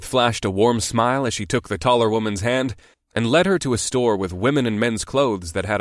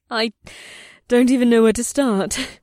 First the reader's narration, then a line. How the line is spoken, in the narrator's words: the dark-haired woman said with a nervous giggle